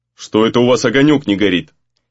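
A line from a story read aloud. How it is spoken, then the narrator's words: Stern question. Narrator (Russian): строго спросил Гризли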